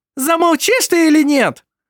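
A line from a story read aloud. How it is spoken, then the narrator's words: Hysterical exclamation. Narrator (Russian): Истерично воскликнула его жена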